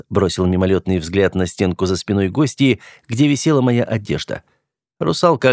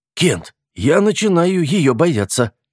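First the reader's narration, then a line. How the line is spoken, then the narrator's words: Frightened whisper. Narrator (Russian): испуганным шепотом произнес я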